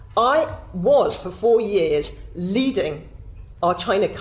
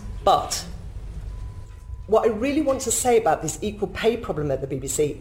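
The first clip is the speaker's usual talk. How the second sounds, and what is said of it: Emotional, strained voice. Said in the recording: “I'm getting emotional.”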